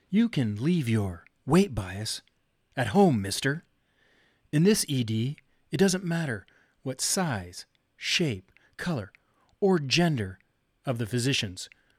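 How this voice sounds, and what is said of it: Captain Kirk impression. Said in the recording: “in my best Captain Kirk voice ... That was my best Shatner.”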